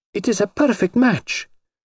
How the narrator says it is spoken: she cried delightedly

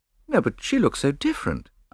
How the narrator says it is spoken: I replied rather feebly

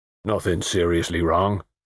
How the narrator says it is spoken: said the mechanic, in a low, hoarse country voice

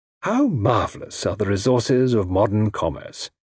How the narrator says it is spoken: he murmured

